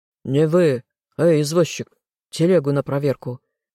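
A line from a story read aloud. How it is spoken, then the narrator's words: Rough barking guard. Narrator (Russian): Грубо рявкнул страж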